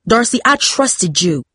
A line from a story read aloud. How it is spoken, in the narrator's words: her father yelled